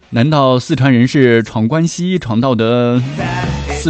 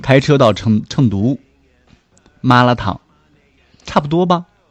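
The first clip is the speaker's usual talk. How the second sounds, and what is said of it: Speaks in Shandong dialect. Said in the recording (Chinese): “我给你用山东话”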